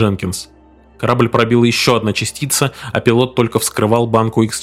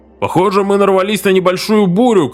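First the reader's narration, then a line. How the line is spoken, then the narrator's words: Distant shout. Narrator (Russian): крикнул из дальнего конца судна Барстоу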